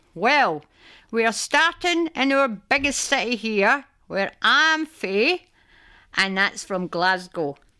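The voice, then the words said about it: Glaswegian Scottish accent. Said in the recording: “I'm a Glaswegian ... the Glaswegian accent is known for its, wait for it, rapid speech, use of glottal stop, particularly for T sounds, and a sing-song intonation”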